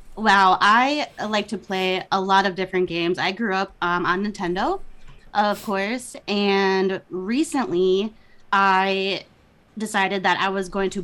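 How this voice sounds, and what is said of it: Minnesota accent. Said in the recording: “my Minnesota accent ... Love the accent. ... for us, it's exotic.”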